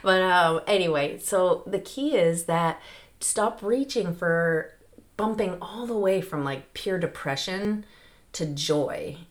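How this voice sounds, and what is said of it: Strained, fading voice. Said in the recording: “I had to clear my throat ... I'm still losing my voice after all these weeks ... too much talking”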